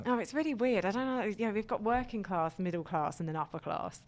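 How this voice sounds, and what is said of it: Middle-class accent. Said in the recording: “You can't tell from my accent that I didn't you? Because it's a more middle class, like.”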